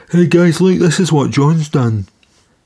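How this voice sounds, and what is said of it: Speaker imitates his own voice. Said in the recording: “That was my impression of myself.”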